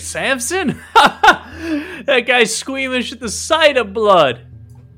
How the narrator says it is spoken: Both of the guards start laughing and say

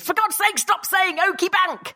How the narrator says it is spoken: Even my daughter shouted

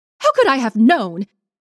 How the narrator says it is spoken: she snapped

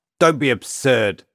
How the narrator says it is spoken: Alexei spat, incensed by the notion that his experience was anything other than ordinary

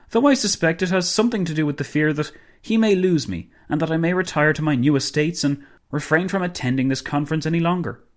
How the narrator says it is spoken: Dinglebrush exclaimed

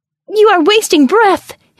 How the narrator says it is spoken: his soul shrieked

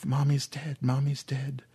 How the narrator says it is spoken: Aaron said quietly

